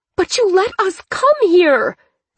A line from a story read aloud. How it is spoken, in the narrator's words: Thea screamed